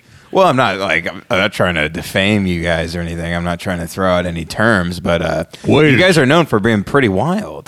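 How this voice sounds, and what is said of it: Slight Texas accent. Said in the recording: “a little bit of a Texas accent”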